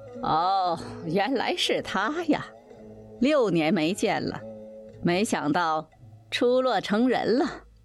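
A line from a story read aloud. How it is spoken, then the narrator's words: Laughing. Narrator (Chinese): 西门庆笑道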